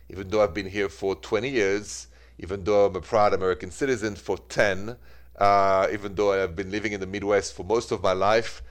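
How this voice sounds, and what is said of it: French accent, Parisian. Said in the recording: “my French accent. That never changes. ... this accent, it is straight from Paris ... the accent, though, doesn't seem to fade away”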